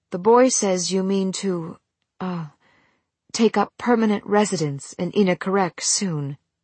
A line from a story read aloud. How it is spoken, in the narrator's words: she took a deep breath and said in a calmer tone